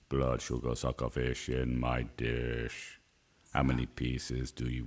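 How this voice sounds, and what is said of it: Deep voice imitating another person. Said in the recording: “why did you go Arnie? Can't you just go deep in your own accent? ... I always drop into an Arnie if I'm going deep”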